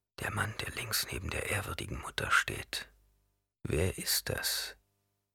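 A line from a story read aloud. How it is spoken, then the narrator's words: Whispered. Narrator (German): flüsterte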